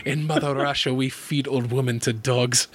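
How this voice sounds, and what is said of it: Put-on heavy Russian accent. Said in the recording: “this really heavy Russian accent ... with that accent”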